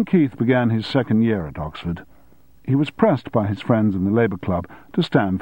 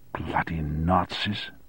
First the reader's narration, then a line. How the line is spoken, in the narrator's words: muttered Keith